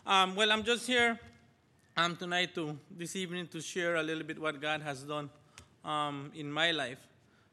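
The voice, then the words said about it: Spanish accent in English. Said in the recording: “I have a Spanish accent now and again”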